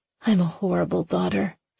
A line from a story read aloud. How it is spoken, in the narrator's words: she whispered